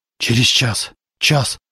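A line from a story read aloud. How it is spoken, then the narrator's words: Mutter. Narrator (Russian): бормотал Зарубин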